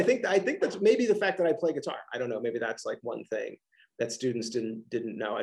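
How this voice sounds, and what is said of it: Philadelphia-region American accent. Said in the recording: “I have this wonderful accent, that I'm from the Philadelphia region”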